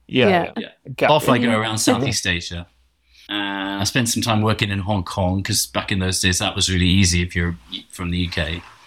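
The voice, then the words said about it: Posh English accent. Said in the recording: “my posh accent”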